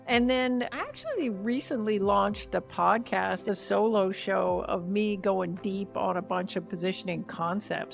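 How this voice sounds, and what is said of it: Canadian accent. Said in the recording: “my prime Canadian accent”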